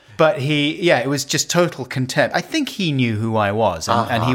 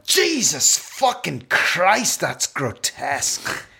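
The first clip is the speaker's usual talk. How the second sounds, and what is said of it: Bad James Nesbitt impression. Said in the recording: “bad James Nesbitt impression.”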